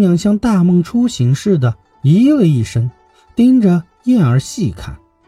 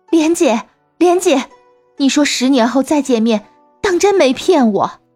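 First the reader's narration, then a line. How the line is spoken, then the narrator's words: Loud calling. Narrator (Chinese): 大声叫道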